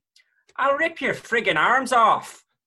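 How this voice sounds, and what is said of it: Put-on Irish accent. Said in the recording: “Oh, lovely accent... Apologies to anyone who lives on the island of Ireland there... your attempt at impersonation there”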